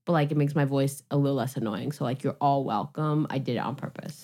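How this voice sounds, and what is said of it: Tired-sounding voice. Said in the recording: “I'm so tired today... You can hear it in my voice. I sound like I'm tired.”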